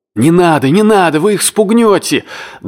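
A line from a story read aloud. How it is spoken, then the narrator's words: Annoyed shout. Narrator (Russian): досадливо крикнул кто-то на палубе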